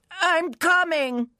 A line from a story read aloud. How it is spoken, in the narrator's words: the old man shouted, in exactly the sort of desperate, overly loud voice